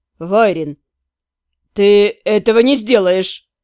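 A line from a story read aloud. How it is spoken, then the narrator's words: Teacher's inner groan. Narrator (Russian): мысленно простонал учитель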